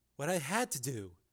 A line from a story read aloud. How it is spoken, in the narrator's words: she answered calmly